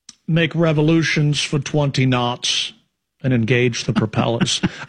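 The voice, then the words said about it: Sean Connery impression. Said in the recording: “this Sean Connery voice”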